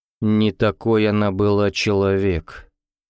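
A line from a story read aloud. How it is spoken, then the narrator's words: Gloomy grumble. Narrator (Russian): мрачно буркнул Орлов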